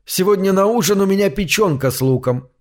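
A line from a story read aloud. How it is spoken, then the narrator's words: Cheerful. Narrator (Russian): весело сообщил я ему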